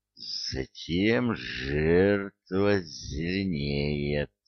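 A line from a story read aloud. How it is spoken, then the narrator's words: Gleeful hiss. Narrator (Russian): радостно прошипел удушитель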